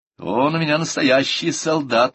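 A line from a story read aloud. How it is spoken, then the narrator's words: Cheerful. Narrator (Russian): весело сказала миссис Роналдсон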